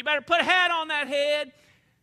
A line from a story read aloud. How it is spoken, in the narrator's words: Granny'd be hollering